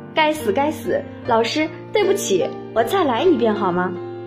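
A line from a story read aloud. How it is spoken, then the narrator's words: Laughing. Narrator (Chinese): 可是又笑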